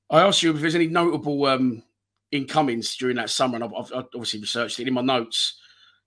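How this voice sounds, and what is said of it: Hoarse, strained voice. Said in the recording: “I've lost my voice a bit last night, screaming, all the goals going in. My voice ain't used to that.”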